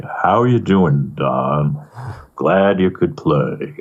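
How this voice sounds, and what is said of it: Slow, deep imitated voice. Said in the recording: “Hilly was just this great character ... he talked very slow ... Deep voice. He was an opera singer”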